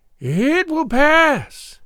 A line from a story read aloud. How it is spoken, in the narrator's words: she cried